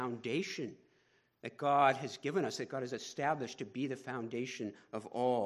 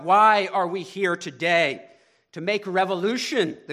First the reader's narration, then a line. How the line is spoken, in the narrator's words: the group answered